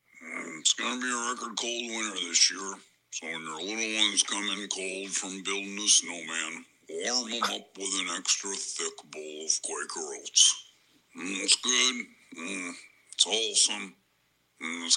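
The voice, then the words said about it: Impression of Wilford Brimley. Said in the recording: “Dax's impression of Wilford Brimley”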